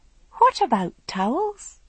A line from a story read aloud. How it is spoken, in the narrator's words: said the voice sweetly